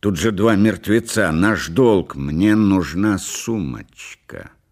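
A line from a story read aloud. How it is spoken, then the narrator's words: Stubborn and angry. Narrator (Russian): сказала Делла упрямо и зло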